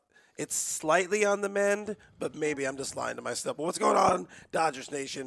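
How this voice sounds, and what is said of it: Hoarse, damaged voice. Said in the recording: “My voice is still tore up ... my throat is toe up ... someone killed your voice”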